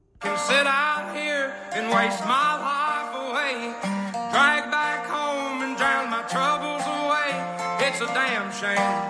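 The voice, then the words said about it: Strong southern accent while singing. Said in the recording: “he has like a very strong southern accent ... So that's fake, right?”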